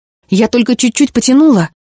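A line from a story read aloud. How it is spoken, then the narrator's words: Defensive exclamation. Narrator (Russian): оправдываясь, воскликнула Жанна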